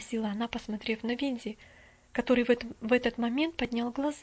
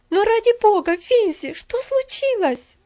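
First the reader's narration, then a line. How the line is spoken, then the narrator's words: Anxious cry. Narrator (Russian): вскрикнула она с еще большим беспокойством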